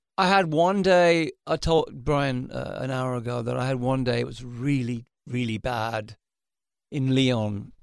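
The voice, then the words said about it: Slightly raspy speaking voice. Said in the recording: “I hear a little rasp in your speaking voice still”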